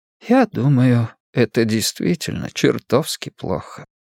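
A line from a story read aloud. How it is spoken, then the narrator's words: Sighing. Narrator (Russian): сказал Сурендра, вздохнув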